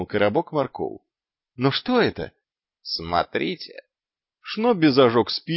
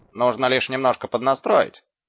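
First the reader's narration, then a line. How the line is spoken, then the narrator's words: Declared cheerfully. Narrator (Russian): бодро заявил Шнобби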